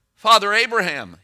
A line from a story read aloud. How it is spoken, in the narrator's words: he called out